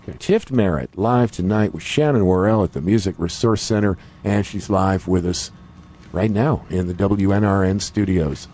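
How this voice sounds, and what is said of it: Dreamy radio announcer voice. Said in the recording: “You have you that dreamy radio voice.”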